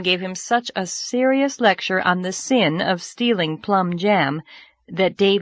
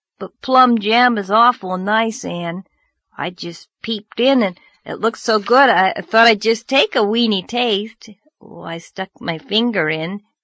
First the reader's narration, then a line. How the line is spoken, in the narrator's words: Anne groaned